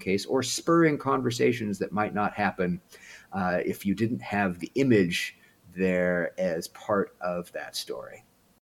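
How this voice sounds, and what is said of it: American accent. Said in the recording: “your accent tells me you're American.”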